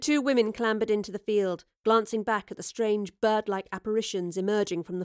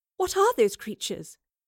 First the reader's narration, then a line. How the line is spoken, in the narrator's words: gasped Jane